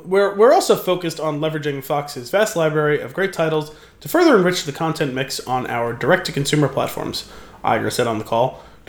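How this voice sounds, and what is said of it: Mock newscaster reading voice. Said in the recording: “that's why I'm reading it like this ... in my newscaster voice, but still. slightly buzzed newscaster voice?”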